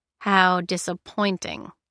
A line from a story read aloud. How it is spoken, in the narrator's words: Kai drawled